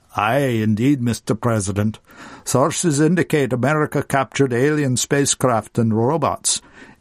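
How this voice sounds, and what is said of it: Scottish brogue accent. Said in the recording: “His unusual brogue accent vibrates”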